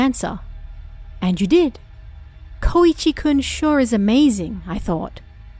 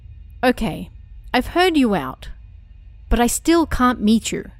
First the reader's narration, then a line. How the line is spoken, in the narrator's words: I said